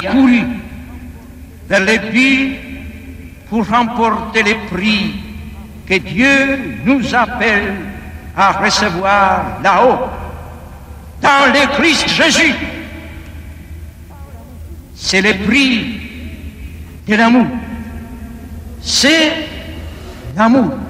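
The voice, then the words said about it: Singsong Polish accent, rolled Rs. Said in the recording (French): “cette voix reconnaissable, ce timbre et puis cet accent chantant, roulant les R à la polonaise ... on entend l'écho donné devant toute cette foule”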